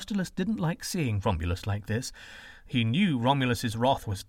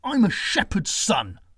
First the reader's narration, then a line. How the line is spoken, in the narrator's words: he spat bitterly